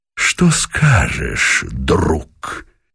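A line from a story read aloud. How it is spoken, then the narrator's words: Quiet, mocking question. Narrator (Russian): Тихо, без злобы, скорее насмешливо спросил Пугачев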